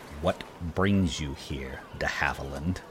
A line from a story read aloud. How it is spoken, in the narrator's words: He said through gritted teeth and a barely restrained contempt